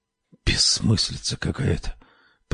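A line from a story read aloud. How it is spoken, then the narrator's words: Whispered. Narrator (Russian): прошептал Лоуренс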